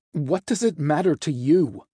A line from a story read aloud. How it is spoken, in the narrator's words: Azazel snapped